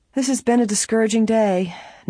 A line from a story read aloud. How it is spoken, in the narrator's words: Nancy remarked, sighing